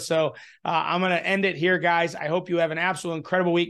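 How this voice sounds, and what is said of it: Strained, fading voice. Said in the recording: “losing my voice after this weekend and after this video”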